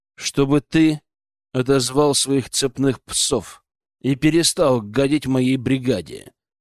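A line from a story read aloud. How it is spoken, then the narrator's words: Icy reply. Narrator (Russian): ледяным голосом ответил я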